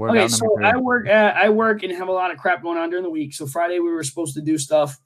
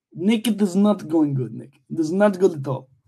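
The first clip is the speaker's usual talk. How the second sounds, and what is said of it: Bad put-on Russian accent. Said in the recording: “I am doing it in Russian now ... I hate your accent ... I'm gonna keep bouncing back in and out of that accent ... It sounds like trash.”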